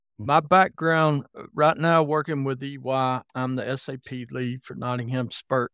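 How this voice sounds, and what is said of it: Southern American accent. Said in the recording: “I was born and raised in Alabama, if you're wondering about my accent”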